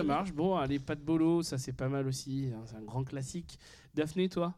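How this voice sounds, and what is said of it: Usual voice. Nothing is said of it.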